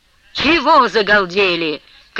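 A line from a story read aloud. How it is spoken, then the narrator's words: Loud shout. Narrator (Russian): крикнул он на всю келарню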